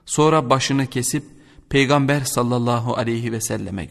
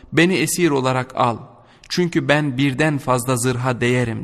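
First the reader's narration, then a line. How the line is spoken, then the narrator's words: Plain. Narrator (Turkish): dedi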